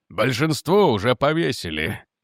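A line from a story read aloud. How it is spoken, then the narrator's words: Gloomy. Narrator (Russian): мрачно сказал Ломас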